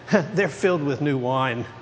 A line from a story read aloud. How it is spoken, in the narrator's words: But others were mocking, saying